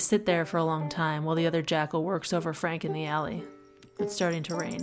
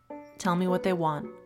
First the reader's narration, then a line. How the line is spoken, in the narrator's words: say evenly